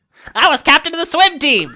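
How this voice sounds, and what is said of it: Gnome character voice. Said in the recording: “do the gnome voice.”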